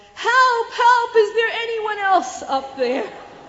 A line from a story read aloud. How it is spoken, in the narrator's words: Logan yelled